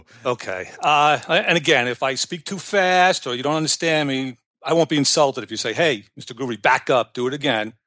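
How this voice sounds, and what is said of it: New York accent. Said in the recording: “I'm originally from New York. I don't know if you could tell by my accent.”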